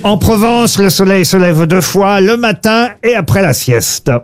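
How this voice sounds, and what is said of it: Slight southern French accent. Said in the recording (French): “Vous avez utilisé un petit accent. ... ça parle du midi”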